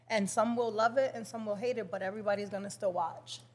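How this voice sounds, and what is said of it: Dominican accent. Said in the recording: “I'm very Dominican. I know you guys can hear my accent ... you have such a cute accent”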